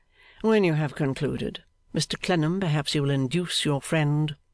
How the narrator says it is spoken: said Miss Wade calmly

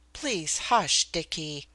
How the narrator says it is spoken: I pleaded

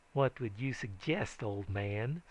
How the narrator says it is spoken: sneeringly remarked Polk County

